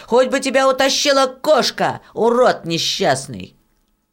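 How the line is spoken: Angry shouting. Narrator (Russian): Даже братья и сестры сердито кричали на него

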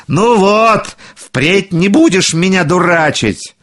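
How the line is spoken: Shouting. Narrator (Russian): Большой Клаус закричал

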